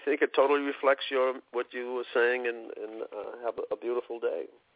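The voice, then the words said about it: Boston accent. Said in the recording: “Is that a Boston accent or a New York accent? ... It's Boston. ... it's a great accent.”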